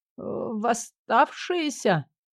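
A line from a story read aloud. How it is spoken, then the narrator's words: Mumbling. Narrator (Russian): промямлил он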